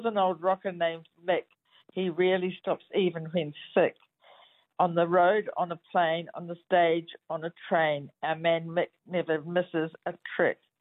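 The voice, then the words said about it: New Zealand accent. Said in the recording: “my accent ... your accent, it did rhyme ... the Kiwi accent”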